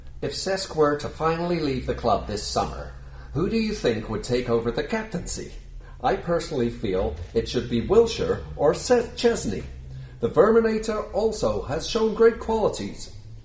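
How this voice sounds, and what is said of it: Bad, campy put-on Canadian accent. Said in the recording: “that was a really bad Canadian accent... very camp... Bit camp.”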